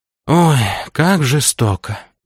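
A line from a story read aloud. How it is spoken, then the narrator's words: Sighing. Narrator (Russian): Вздохнул Антон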